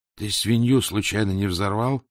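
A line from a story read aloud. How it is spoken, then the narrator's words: Plain. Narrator (Russian): спросил он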